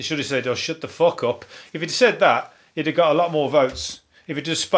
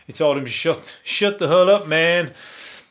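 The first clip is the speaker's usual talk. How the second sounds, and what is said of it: Put-on American accent. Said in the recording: “my best American impression”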